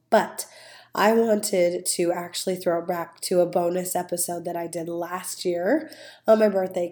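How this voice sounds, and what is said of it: Voice not back to normal. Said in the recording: “you can clearly hear my voice is not quite back to normal”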